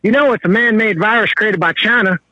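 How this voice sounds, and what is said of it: Put-on redneck accent. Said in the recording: “you drop into redneck almost as easily as I do”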